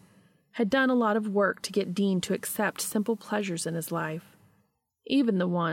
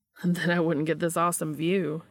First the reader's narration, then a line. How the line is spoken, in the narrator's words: he retorted